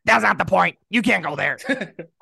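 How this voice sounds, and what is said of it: Bad Cartman cartoon voice impression. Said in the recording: “I have a terrible Cartman ... That was bad, bro.”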